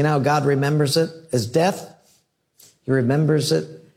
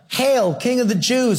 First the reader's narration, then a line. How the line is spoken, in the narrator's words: They were yelling